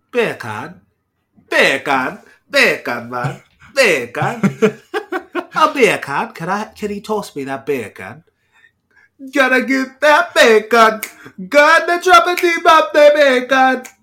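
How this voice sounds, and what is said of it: Put-on Jamaican accent. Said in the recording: “With a Jamaican accent?”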